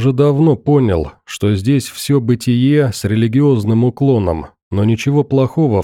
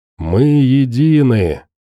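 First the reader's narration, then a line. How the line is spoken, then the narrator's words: Crowd breathing in unison. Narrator (Russian): как один организм выдохнула паства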